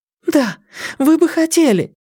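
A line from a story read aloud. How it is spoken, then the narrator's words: Girl's sharp cry. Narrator (Russian): вскрикнула девушка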